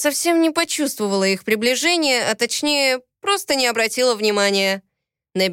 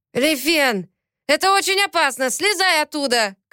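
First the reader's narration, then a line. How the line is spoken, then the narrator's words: Shouted. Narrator (Russian): крикнул Виктор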